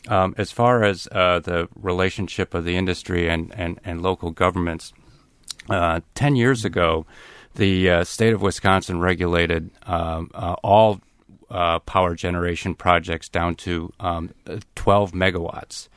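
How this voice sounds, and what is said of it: Voice strained, starting to go. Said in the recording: “I'm starting to lose my voice”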